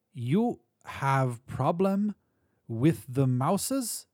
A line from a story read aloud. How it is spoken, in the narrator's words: His voice was high-pitched, the accent German or Polish